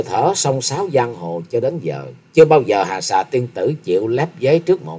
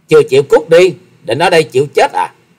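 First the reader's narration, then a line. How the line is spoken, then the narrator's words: Girl's sudden loud shout. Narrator (Vietnamese): Thiếu nữ áo đen chợt quát to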